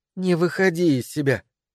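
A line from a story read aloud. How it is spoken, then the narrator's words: Quiet. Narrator (Russian): негромко сказала она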